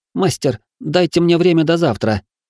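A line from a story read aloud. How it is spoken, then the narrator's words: Pleading. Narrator (Russian): взмолился парень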